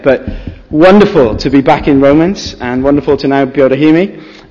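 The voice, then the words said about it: Tired, slightly strained voice. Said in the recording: “my voice doesn't sound quite right today ... there was quite a bit of screaming went on ... my voice is a little bit tired”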